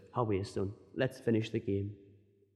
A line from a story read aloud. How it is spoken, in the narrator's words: he gritted his teeth and he whispered